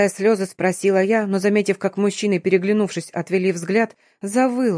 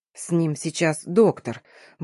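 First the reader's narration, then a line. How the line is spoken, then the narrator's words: Gruff mutter. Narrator (Russian): буркнул один из них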